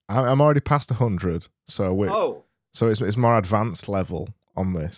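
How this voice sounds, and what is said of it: Odd put-on accent. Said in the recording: “how are you talking like that? What is that? Is that that's an accent?”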